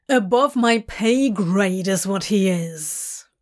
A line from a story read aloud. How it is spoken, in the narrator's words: Crowley growls